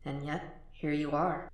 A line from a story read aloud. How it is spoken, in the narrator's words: Will's conscience whispered